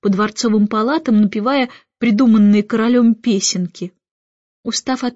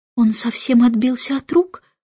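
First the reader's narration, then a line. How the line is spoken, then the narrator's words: Whispering. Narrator (Russian): шепнула королева лорд-канцлеру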